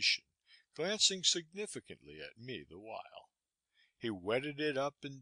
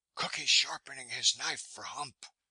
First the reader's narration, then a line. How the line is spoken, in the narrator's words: was being whispered about among the sailors